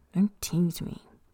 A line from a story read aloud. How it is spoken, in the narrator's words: he mumbles